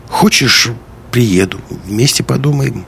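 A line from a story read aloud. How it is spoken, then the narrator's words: Hesitant offer after pause. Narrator (Russian): Помолчав немного, Лиска неуверенно предложила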